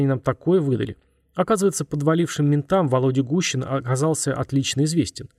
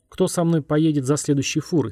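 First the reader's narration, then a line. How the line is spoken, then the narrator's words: Plain. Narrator (Russian): спросил он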